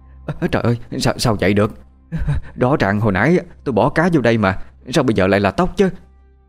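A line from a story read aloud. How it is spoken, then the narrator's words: Stammering. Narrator (Vietnamese): Bà lắp bắp nói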